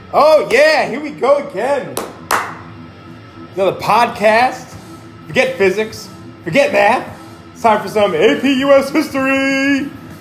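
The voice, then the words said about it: Loud yelling voice. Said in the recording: “Why are you yelling?”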